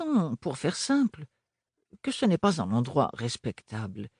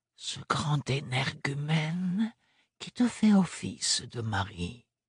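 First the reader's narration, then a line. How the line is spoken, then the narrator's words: Whispered close to ear. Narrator (French): chuchota-t-elle tout contre son oreille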